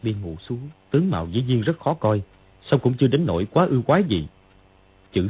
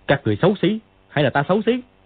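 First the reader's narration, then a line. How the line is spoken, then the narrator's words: Shouted. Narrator (Vietnamese): Dương Quá quát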